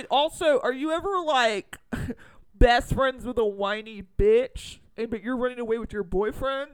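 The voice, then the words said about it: Put-on bro voice. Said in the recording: “doing the bro voice”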